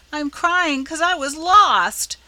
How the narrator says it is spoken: bawled Rob, trying to squeeze out a tear and failing entirely

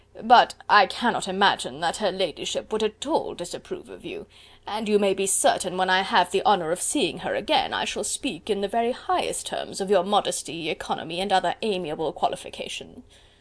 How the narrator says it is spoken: Collins very gravely

